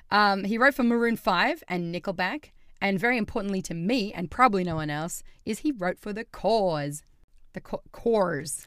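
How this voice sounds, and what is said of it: Speaker's own regional accent. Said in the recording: “sorry, my accent, the cause”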